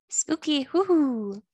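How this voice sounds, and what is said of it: Spooky ghost voice. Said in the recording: “That was my ghost impression. It's not that great.”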